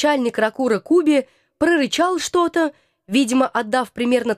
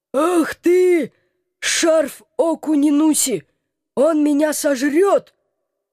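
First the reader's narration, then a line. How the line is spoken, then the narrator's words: Howling. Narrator (Russian): Взвыла голова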